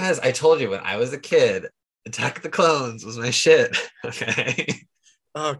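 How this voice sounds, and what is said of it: Usual voice. Nothing is said of it.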